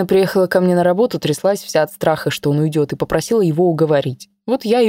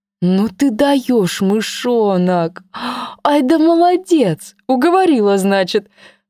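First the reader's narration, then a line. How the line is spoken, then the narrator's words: Laughing loudly. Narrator (Russian): Расхохоталась Ленка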